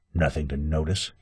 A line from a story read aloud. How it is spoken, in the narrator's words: he muttered